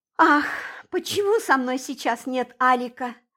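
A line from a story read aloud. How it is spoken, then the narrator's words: Sighed. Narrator (Russian): вздохнула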